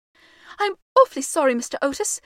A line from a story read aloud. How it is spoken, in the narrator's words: the boy gasped out